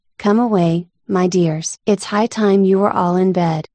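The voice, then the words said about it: Trembling voice. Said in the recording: “in a trembling voice”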